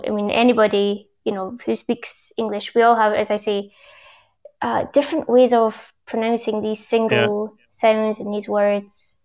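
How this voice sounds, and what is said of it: Scottish English accent, rhotic R. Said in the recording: “So you obviously Scottish, you pronounce your R's, right? ... Scottish English”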